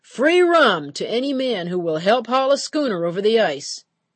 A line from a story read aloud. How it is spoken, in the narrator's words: Paddy hollered to the land from his horse and cart